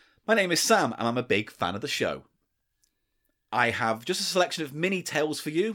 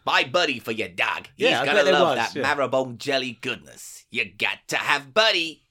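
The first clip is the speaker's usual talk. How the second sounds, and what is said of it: Put-on American accent. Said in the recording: “Do you like my American accent?”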